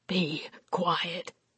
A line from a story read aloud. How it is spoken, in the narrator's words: Brent breathed